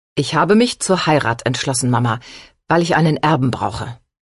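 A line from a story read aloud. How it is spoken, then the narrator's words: Plain. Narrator (German): sagte der Marquis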